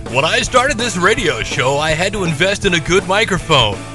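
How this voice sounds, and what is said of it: Announcer-style radio voice. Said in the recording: “put on my radio voice”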